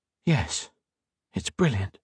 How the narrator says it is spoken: said softly

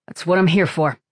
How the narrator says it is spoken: Falcone said in a tight voice

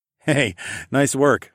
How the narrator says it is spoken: I chuckled

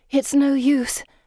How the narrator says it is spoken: Pippa says, panting

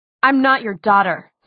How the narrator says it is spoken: said Clary fiercely

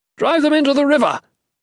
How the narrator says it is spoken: the leader shouted

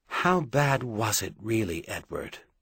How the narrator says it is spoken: She asked now, quietly

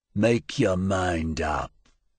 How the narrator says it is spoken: Grilso said

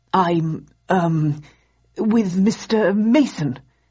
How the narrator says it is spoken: he stammered

